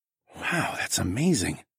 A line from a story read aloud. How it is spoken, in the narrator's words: I whispered